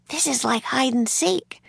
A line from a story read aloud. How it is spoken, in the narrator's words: she whispered